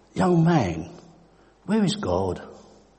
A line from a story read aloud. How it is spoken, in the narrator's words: The minister, a kindly man, asked